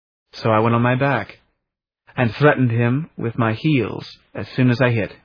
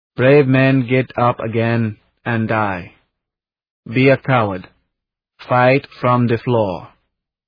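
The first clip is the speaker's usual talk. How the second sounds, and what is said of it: Flat Belgian accent. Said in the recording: “in a flat Belgian accent”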